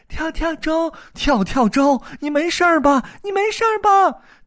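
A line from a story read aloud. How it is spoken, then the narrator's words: Several voices shouting together. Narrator (Chinese): 猫妈妈和妹妹们一起喊起来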